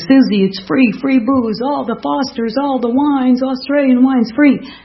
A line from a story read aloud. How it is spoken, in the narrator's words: the group's screaming